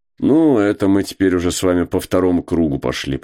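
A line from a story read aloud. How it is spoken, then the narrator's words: Grumbling. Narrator (Russian): проворчал Кузьма Иванович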